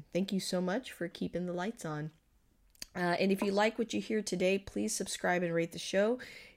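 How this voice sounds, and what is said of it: Voice sounds slightly off, unwell. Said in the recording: “I know that I sound a little bit off. ... I am recovering from COVID. ... if I sound a little different.”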